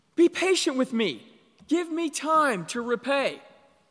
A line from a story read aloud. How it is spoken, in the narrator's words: he pleads